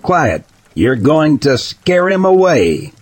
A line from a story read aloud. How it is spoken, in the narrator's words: She yelled at Tim